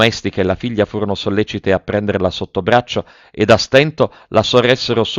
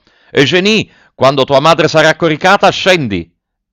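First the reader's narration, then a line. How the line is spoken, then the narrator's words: Shouted. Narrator (Italian): gridò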